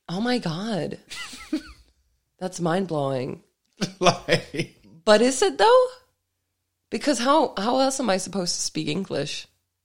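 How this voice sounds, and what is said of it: Dane with American-sounding English accent. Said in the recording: “Your entire voice is a fake accent ... Like a Dane rather than like an American?”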